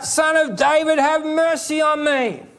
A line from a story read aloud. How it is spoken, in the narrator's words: Blind Bartimaeus screams out